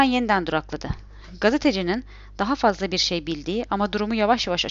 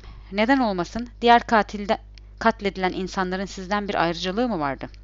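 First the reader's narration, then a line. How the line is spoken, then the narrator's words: Stuttering again. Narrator (Turkish): Orhan Koyuncu yine ama diye kekeledi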